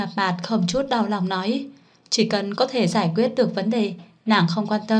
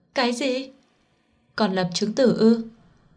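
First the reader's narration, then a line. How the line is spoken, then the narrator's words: Pained sigh. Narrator (Vietnamese): Đinh Mạt Mạt mơ hồ bị đau, không nhịn được thở dài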